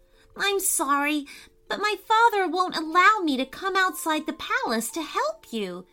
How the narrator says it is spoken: cried Maddy

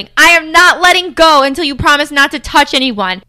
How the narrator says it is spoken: The random guy who has Big Ben in a chokehold is shouting

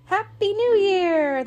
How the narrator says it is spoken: they cried at once

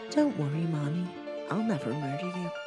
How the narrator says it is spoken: told me in the sweetest of voices in a consoling tone

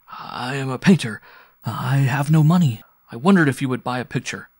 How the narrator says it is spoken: he was almost too agitated to speak, and he stammered as he said

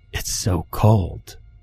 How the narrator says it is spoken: said quietly

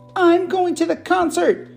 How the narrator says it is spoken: yelled

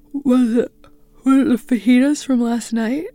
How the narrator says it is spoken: I asked, yawning

